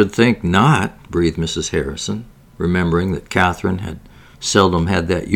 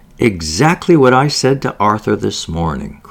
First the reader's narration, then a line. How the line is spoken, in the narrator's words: cried the doctor's wife